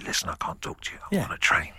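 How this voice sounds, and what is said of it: Very quiet whisper. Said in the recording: “I try and whisper so quietly”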